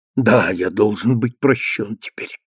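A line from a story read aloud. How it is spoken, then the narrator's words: Feverish muttering. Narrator (Russian): лихорадочно бормотал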